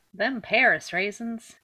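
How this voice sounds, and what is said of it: Put-on Southern US accent. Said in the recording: “I don't know why I keep defaulting to that accent ... Why are you Southern all the time?”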